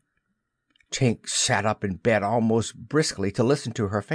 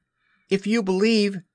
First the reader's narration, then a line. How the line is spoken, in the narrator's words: he shouted to them